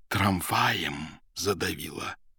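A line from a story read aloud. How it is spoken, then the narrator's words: Whispered question. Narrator (Russian): шепотом спросил Поплавский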